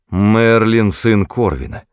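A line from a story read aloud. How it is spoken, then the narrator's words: Through gritted teeth. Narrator (Russian): проговорил он сквозь зубы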